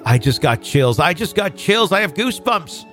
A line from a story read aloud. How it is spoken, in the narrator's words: my mom frantically blurted